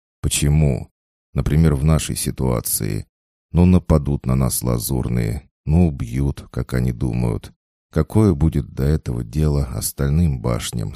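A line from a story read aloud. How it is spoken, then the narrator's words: Plain. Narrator (Russian): спросил парень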